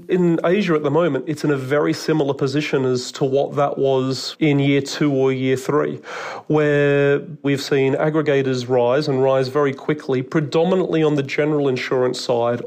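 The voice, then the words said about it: Australian accent. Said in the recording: “I can hear from your accent that you're an Aussie... Australian accent”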